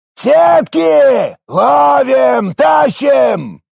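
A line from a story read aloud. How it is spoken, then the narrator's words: Shout. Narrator (Russian): Прокричал Маверик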